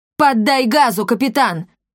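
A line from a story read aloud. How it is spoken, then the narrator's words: Yelling. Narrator (Russian): завопил Финдусу Эдвин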